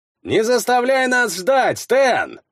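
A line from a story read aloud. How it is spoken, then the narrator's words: Yelling from afar. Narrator (Russian): заорал с кормы Эйнар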